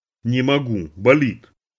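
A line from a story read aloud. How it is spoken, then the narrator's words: Through clenched teeth. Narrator (Russian): Папа сказал сквозь зубы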